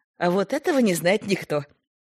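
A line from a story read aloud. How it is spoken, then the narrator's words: Laughing. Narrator (Russian): смеялась Лида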